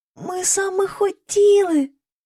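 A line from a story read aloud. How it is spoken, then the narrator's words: Frightened whisper. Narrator (Ukrainian): злякано прошепотіла міс Енні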